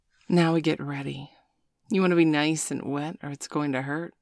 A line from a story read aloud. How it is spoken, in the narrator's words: Sabrina grinned